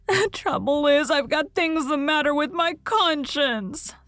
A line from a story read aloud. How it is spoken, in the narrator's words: sobbed Anne